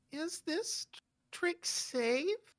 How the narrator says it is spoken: Joni asks, her voice trembling

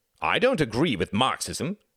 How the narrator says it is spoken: cried Reginald hotly

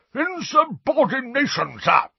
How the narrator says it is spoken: roared a corpulent, red-nosed wizard

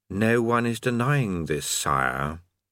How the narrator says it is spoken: his voice, which said calmly

